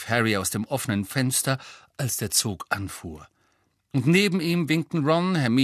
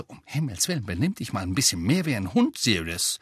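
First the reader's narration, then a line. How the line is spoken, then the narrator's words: Hissing. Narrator (German): Weasley zischte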